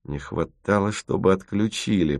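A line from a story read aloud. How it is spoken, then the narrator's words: Grumble. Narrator (Russian): проворчал Тимофеев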